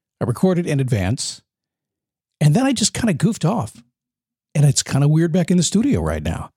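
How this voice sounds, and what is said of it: Rough, worn-out voice. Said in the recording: “you can tell my voice is uh, so much better... It was really good till I turned the podcast thing on, then it fell apart.”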